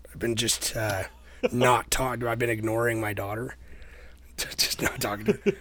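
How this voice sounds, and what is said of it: Raspy, strained voice. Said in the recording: “why my voice is so raspy all the time... this sounds like garbage”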